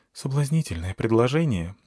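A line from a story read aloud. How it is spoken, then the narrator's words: Sad, smiling. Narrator (Russian): грустно улыбнулась Змеямба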